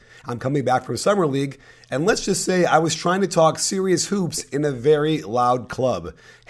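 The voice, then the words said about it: Scratchy, hoarse voice. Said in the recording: “my voice is a little bit scratchy ... I sound like Harvey Fierstein”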